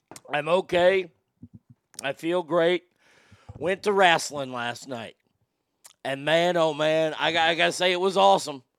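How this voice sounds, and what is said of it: Hoarse, nearly lost voice. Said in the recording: “my voice is completely gone”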